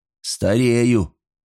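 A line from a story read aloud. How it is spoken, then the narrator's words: Snort. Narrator (Russian): Ули хмыкнул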